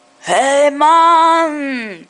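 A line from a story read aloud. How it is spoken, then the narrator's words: Stoned hippie calling out. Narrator (German): rief der bekiffte Hippie-Verschnitt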